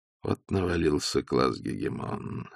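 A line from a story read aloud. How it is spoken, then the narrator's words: Said sadly. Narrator (Russian): сказал Остап печально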